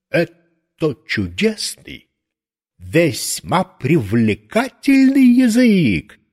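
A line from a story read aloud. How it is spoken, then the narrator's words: Exclaiming. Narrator (Russian): воскликнул экскурсовод Львов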